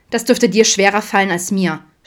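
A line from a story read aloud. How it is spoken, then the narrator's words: Snapped back. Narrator (German): schnauzte zurück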